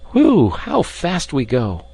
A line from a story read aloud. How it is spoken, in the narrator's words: cried Ben